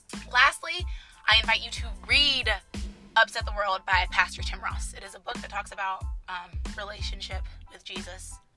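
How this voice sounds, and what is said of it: Tired, low-energy voice cutting in and out. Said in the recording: “my voice is like going in and out and I'm like kind of getting a little tired. So my energy is running low”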